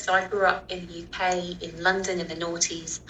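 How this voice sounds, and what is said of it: British accent. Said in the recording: “as you can tell, I'm from Britain. I have a British accent.”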